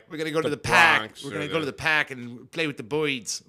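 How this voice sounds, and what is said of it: Exaggerated put-on Boston accent. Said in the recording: “when I think of New Yorker, I'm just like ... What the fuck was that? That was a Boston accent.”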